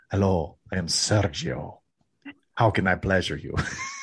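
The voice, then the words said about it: Put-on Spanish accent. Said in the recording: “he's still got that, you know, that Spanish accent.”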